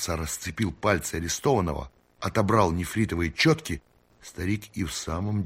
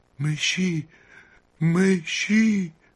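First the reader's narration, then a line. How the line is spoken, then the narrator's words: Trembling, repeating. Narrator (Russian): китаец дрожащим голосом повторял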